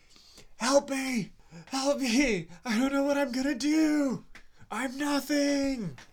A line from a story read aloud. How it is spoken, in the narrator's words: You hear Aurel screaming from the cave